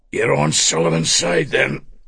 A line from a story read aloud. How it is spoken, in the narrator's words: he said, his breath wheezed